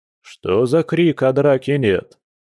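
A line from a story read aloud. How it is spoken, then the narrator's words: Lively deep voice from doorway. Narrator (Russian): задорно пробасил Борис с порога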